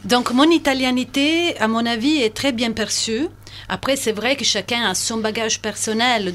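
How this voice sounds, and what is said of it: Italian accent speaking French. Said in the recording (French): “italienne ... mon accent est charmant, que c'est magnifique”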